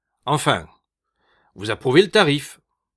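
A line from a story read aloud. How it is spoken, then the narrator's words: Curt retort. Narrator (French): répliqua sèchement M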